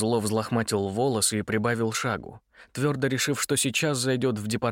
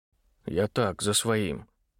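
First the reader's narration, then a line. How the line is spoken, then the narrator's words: Mutter. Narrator (Russian): буркнул Митя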